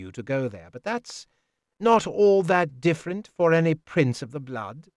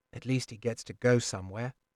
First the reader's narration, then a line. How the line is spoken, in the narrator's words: I muttered